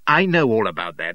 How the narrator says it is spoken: says I impatiently

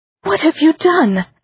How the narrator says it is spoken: Amory cried

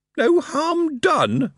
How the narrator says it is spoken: Moist wailed

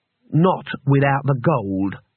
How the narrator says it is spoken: said Gensia

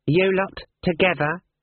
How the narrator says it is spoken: he snapped

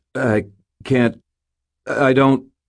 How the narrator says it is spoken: stammered

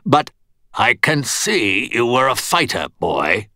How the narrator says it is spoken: Stuart said, his voice harsh

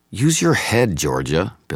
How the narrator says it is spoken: Billy snapped back

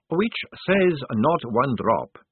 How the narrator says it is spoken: said the young man calmly

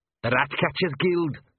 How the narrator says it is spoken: snarled Arthur

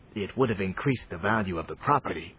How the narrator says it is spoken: Lord Voraz whispered back

